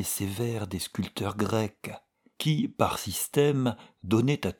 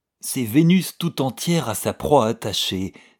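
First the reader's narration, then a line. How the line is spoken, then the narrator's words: Pleased exclamation. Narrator (French): s'écria monsieur de Peyrehorade, satisfait de mon enthousiasme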